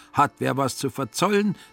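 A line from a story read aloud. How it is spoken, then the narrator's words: Unsuspecting call. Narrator (German): rief der Finanzer ahnungslos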